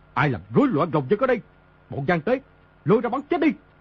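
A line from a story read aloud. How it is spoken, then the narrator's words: Loud angry shout. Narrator (Vietnamese): tức giận lớn tiếng quát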